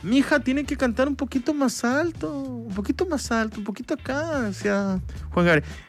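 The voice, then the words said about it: Poor imitation of another person's voice. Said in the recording (Spanish): “es mi mala imitación de Juan Gabriel, horrible ... No le hago mucha justicia”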